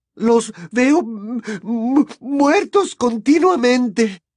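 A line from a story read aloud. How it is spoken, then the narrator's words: Woman moaning. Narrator (Spanish): gimió la señora Weasley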